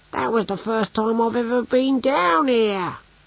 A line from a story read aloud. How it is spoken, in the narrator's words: wailed Brocando